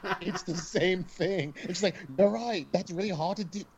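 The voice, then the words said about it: Put-on Australian accent. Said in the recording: “is that your Australian accent? Is that your Poppy Australian accent?”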